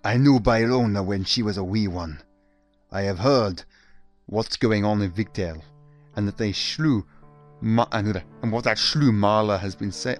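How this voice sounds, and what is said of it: Attempted Russian accent slipping Scottish. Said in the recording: “I need to get my accent ... Mother Russia ... I can't get this fucking accent right. Bloody hell, it keeps going Scottish.”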